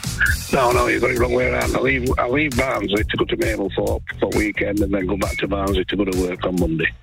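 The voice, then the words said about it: South Yorkshire accent. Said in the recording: “That's a proper Mablethorpe accent I can hear. ... It's a South Yorkshire accent you can hear”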